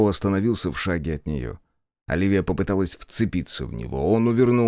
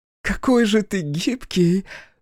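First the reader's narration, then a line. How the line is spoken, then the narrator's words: Exclaiming. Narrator (Russian): воскликнула она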